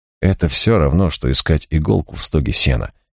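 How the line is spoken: Displeased grumble. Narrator (Russian): недовольно проворчал Марк

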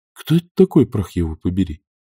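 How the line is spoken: Whispered question. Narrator (Russian): шепотом спросил Том Джон

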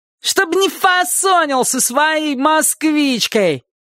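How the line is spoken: Boy shouting after. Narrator (Russian): крикнул вслед один из ребят

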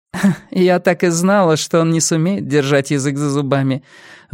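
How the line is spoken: Exhaled feigned irritation. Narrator (Russian): выдохнула хозяйка с хорошо разыгранным раздражением

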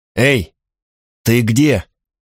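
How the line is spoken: Hoarse shout. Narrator (Russian): крикнул я хрипло

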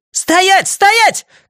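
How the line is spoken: Shouted command. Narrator (Russian): крикнула Джеки Уэттингтон

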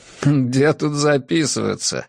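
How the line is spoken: Laughing. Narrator (Russian): рассмеялся я

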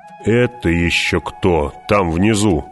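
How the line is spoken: Menacing question. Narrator (Russian): грозно спросил герцог

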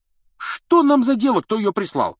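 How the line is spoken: Carefree exclamation. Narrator (Russian): воскликнул беспечный Рон

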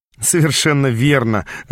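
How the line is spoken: Laughing through pain. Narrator (Russian): рассмеялся я, заглушая боль

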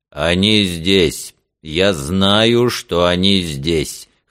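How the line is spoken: Trained, well-projected voice. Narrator (Russian): хорошо поставленным голосом проговорил Девашер

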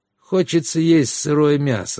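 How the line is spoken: Sighing. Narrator (Russian): вздохнул Гиран

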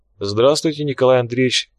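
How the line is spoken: Calm, unfazed reply. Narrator (Russian): спокойно ответила та, будто видела Кирюса не первый, а минимум сотый раз

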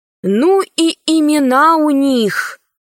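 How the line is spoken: Sighing. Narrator (Russian): вздохнула Алиса

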